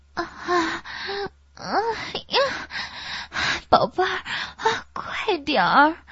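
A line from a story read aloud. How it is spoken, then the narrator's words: Drawn-out sing-song moaning. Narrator (Chinese): 声音曲折悠远，韵味深长，就像在哼唱一首无字的曲子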